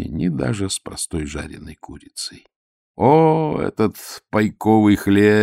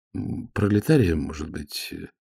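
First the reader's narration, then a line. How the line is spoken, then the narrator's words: Timid suggestion. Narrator (Russian): робко предположил Обальянинов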